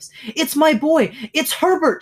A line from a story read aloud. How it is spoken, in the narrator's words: cried, struggling automatically